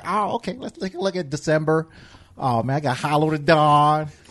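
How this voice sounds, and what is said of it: Imitates another person's voice. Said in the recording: “Is that that West Coast accent? Is that how they talk out there? ... That's the Danny accent.”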